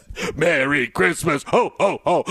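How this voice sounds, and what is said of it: Deep voice imitating a rapper. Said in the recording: “The DMX voice ... I was just doing a little Merry Christmas with a deep voice”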